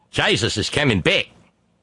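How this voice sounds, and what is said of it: Terrible put-on Australian accent. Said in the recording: “my terrible Australian accent”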